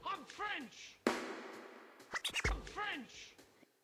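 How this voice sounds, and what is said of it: Outrageous put-on French accent. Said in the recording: “I'm French! Why do you think I have this outrageous accent”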